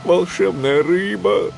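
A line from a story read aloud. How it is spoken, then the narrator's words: Pleading. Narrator (Russian): взмолился он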